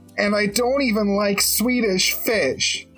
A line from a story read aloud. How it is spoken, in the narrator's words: he yelled